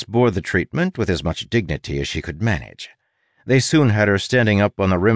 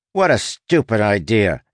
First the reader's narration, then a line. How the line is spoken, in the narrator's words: he snapped